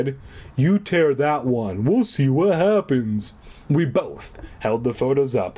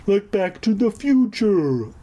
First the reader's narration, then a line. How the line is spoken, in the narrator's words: I exclaimed